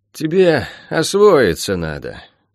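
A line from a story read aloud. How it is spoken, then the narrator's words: Sighing. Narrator (Russian): вздохнула мисс Барбара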